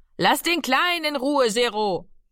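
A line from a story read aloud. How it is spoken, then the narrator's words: Mother calling out. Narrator (German): rief Mami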